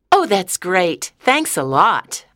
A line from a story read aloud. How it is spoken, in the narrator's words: I said happily